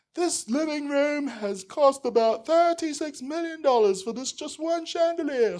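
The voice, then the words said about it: Nasal British Robin Leach impression. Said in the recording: “he has this nasal British voice ... a really terrible impression of him”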